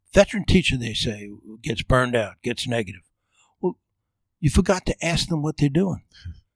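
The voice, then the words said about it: Georgia regional accent. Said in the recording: “As for the accent, I've been in Georgia for over 30 years. I can't get rid of it.”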